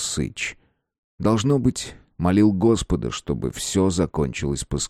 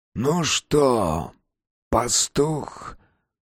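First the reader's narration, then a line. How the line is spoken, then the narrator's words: Hoarse rasp. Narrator (Russian): прохрипела собачья пасть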